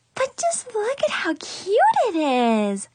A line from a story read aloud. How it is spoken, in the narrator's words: Chloe squealed